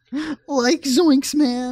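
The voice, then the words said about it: Shaggy cartoon character voice. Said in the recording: “my Shaggy impression”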